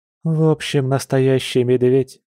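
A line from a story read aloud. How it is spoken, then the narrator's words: Smiling question. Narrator (Russian): с улыбкой в голосе спросила Маша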